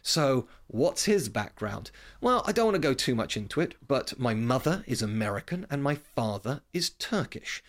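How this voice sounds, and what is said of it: British accent. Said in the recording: “you can tell from my accent, I'm clearly British”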